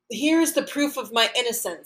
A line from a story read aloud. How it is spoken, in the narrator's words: he shouts to the adviser of the household officers